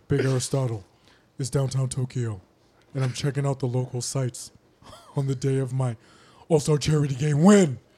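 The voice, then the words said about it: Shaquille O'Neal impression. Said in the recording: “You should read it like Shaq. ... You got to do the Shaq voice.”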